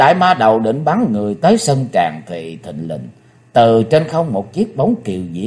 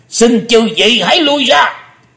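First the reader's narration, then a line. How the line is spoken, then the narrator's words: Thunderous roar. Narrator (Vietnamese): Âm Ma giáo chủ mới gầm to tợ sấm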